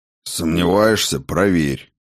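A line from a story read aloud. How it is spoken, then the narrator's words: Sulky grumble. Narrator (Russian): буркнул познавший тьму, словно обидевшийся мальчишка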